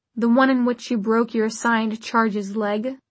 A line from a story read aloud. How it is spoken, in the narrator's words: the preacher said dryly